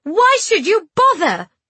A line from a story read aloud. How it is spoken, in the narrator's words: I shouted